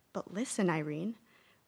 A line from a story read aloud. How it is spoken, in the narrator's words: whispered one of the faces, a motherly one